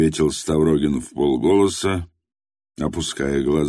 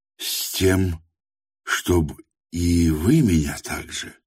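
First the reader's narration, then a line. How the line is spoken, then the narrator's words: Heartfelt voice. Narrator (Russian): проникнутым голосом промолвил Тихон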